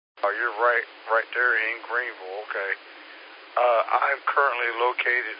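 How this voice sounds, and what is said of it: Scratchy, hoarse voice. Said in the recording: “my voice is scratchy. I've had a sinus infection that started to affect my voice.”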